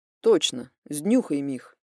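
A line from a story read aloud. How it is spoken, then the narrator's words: Flat, businesslike. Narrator (Russian): поздравил Демьян бесстрастным голосом, словно продолжал говорить о делах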